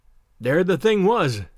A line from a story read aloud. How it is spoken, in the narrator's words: said Broughton